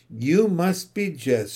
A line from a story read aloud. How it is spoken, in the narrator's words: she said